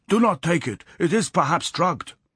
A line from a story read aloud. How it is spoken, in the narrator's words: the Japanese cried